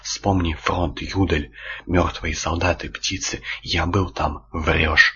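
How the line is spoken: Breathless exhale. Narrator (Russian): выдохнул водила

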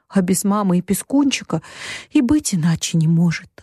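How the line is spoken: Tearful sigh. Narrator (Russian): вздохнула Бет, подняв полные слез глаза

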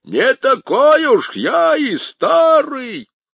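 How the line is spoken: Shouted. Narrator (Russian): крикнул

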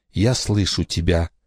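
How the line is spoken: Quiet. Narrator (Russian): тихо произнесла Рамона

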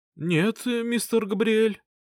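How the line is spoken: Bleating voice. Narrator (Russian): ответил один из них блеющим голосом

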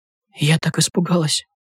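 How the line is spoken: Private whisper. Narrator (Russian): шепнула Наташа, чтобы только Глеб Николаевич слышал

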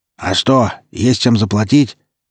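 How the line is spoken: Slightly hoarse voice. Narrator (Russian): другой голос, слегка хриплый

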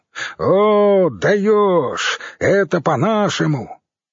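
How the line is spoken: Roaring along with singer. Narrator (Russian): Катрана взревел вместе с певцом

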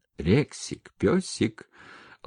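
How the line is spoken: Affectionate calling. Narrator (Russian): ласково позвала Маша

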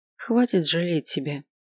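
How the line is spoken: Quiet. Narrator (Russian): тихо сказал Тиара

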